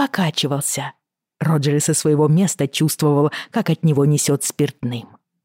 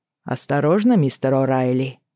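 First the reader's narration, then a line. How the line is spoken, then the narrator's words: Dry address. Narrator (Russian): сухо обратился Шеймус Хэнлон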